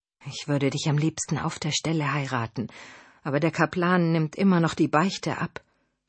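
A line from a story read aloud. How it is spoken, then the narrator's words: Whisper. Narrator (German): flüsterte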